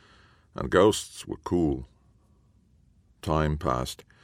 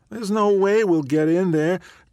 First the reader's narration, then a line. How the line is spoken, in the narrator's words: Kai whined